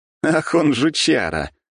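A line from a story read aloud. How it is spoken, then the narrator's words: Laughing aloud. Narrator (Russian): рассмеялся я в голос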